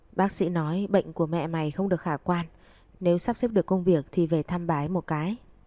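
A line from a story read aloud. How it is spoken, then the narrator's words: Sighing, hesitant, over phone. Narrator (Vietnamese): Ở đầu dây bên kia tiếng thở dài của ông, sau một hồi mới thấy ông trả lời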